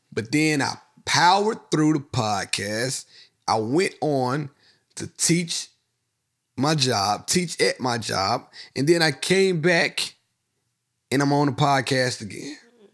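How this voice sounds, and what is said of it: Hoarse voice. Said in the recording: “I'm hoarse. I was already getting hoarse last episode. ... That sounds like you're getting sick.”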